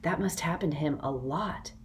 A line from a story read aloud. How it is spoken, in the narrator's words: Rainey whispered